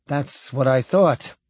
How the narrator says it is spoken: Whitbread said uneasily

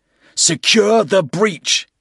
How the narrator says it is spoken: he yelled to Nihlus

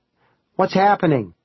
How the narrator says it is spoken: Kyra cried

